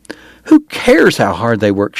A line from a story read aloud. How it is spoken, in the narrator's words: she cried